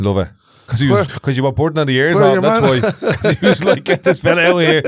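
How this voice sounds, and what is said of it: Usual voice. Nothing is said of it.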